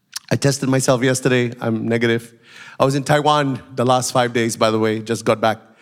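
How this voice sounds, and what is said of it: Nasal, congested voice. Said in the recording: “I've got a bit of a flu ... why I sound a bit nasal.”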